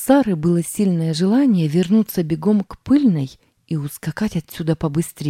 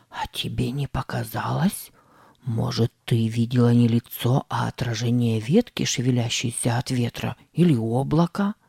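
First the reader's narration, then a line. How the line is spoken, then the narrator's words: Whisper. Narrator (Russian): зашептал Сэм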